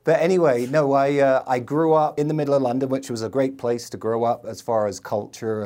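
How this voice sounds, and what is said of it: London English accent. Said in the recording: “I grew up in London. ... You can probably tell by my accent”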